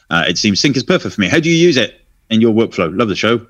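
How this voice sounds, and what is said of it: Usual voice. Nothing is said of it.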